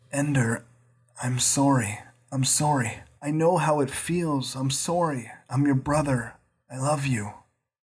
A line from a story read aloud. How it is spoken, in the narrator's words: He whispered